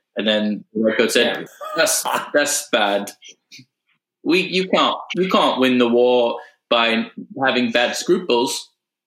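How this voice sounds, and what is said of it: Put-on British-Australian accent. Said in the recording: “Is that a British accent? ... now it's Australian ... I was getting a little New Zealand as well”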